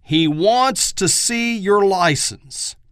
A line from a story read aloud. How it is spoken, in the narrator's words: Elmer yelled